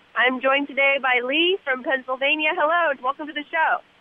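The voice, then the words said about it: Congested, slightly funny-sounding voice. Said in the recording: “I have a cold, so I sound a little funny”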